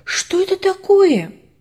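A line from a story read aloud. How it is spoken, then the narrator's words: Sudden shout. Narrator (Russian): Внезапно Ваня закричал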